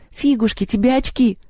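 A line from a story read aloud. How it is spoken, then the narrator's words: Sobbing. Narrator (Russian): всхлипнула Маша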